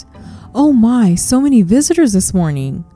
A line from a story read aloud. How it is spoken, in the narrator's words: she exclaimed